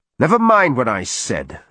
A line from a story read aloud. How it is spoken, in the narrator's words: Arik snapped